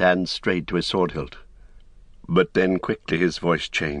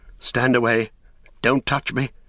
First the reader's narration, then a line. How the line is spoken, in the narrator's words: he cried